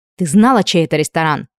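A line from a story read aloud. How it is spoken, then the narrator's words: Barked. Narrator (Russian): рявкнула она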